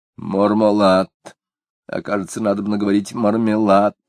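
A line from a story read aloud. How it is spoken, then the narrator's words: Woman muttering. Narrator (Russian): пробормотала супруга издателя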